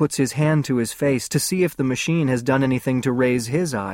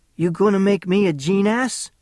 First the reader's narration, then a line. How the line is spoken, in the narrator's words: Guarino's laugh is friendly